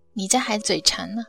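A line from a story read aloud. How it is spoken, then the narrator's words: Joking father. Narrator (Chinese): 父亲曾经开玩笑的说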